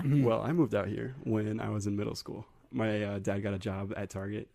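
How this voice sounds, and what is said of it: Deep, soft, well-articulated male voice. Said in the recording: “You have a really great podcast voice. ... It's like super deep in my headphones right now. ... And it's just soft. ... And he articulates his words.”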